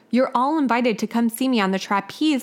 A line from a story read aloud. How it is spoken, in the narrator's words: Michelle exclaimed